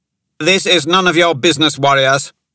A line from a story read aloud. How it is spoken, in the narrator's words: the Inquisitor snapped